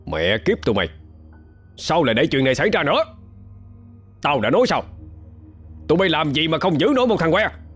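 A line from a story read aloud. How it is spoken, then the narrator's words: Angry shout. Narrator (Vietnamese): quát lên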